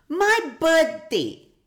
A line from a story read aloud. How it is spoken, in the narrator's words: exclaimed Jumpy